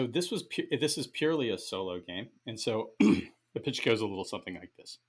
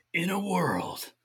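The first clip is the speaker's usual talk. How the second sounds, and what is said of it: Dramatic movie trailer announcer voice. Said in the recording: “It was the movie trailer voice.”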